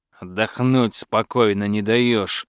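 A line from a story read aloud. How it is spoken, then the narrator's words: Grumbling. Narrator (Russian): пробурчал Дурнослав Кризимирович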